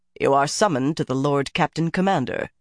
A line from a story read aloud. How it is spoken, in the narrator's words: he said coldly